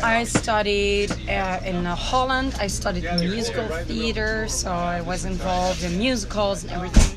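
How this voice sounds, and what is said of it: Belgian accent in English. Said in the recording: “that beautiful accent ... I'm from Belgium”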